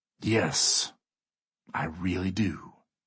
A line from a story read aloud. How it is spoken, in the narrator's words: Wayne says coldly